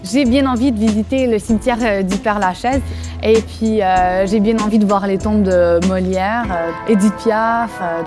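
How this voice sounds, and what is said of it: Québécois French accent. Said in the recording (French): “je viens de Montréal... dès qu'on entend mon accent”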